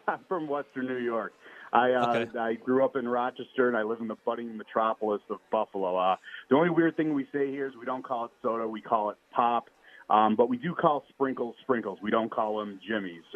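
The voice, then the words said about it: Western New York accent. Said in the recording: “I'm hearing the accent ... it's a Western New York accent”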